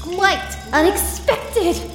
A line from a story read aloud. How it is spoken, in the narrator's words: the director cried gleefully